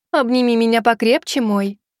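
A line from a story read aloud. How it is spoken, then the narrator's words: Tender cooing. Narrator (Russian): проворковала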